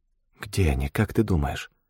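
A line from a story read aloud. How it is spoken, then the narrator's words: Girl whispering a question. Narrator (Russian): шепотом спросила девушка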